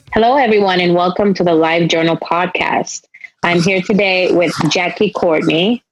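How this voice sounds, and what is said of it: Spanish accent. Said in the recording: “my Spanish accent”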